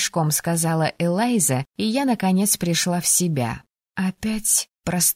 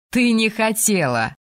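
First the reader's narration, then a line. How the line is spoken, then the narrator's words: Group blurt, then laughter. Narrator (Russian): выдали ребята и рассмеялись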